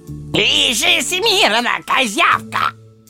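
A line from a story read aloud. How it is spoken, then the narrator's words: Bark. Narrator (Russian): Рявкнул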